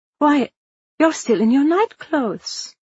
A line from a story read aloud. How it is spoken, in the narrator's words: Marianne exclaimed